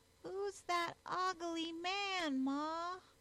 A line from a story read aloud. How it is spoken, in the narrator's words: he whined out